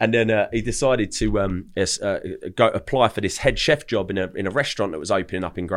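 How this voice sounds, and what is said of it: Usual voice. Nothing is said of it.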